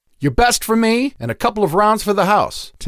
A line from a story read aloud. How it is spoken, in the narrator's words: Tanea shouted over the terrible music